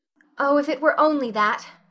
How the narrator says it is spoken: sighed Anne

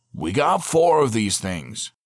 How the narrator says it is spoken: he said loudly

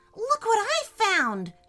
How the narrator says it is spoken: exclaimed in excitement

